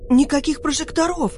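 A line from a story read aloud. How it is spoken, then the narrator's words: Nearly shouting. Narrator (Russian): почти закричала Лика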